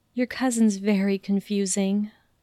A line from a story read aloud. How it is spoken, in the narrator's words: she sighed